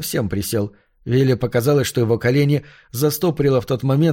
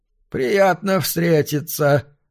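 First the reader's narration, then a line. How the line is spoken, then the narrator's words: Rustling voice. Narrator (Russian): сказал Лон Эндерс шелестящим голосом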